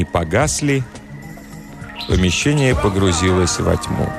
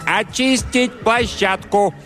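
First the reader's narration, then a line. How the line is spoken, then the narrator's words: Assistant director's yell. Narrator (Russian): Помощник режиссера завопил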